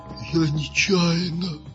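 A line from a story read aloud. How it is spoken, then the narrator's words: Whispered confession. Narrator (Russian): шепотом признался Вахмурка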